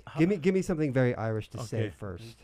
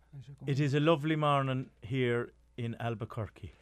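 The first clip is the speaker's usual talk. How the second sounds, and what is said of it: Bad Irish accent drifting Scottish. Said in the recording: “I love doing really bad accents. ... do you have any pointers so I can up my Irish accent? ... As Scottish. ... No, it goes Scottish.”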